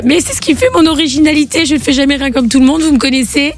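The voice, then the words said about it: Hoarse, nearly voiceless voice. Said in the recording (French): “avec ta voix cassée ... j'ai plus de voix. J'ai une voix qui est complètement aphone.”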